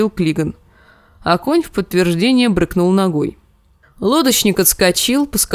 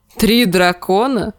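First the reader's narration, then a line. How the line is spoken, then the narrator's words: Short laugh. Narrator (Russian): хохотнул Клиган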